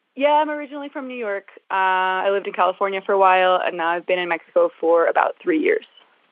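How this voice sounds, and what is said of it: American accent. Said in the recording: “you sound American.”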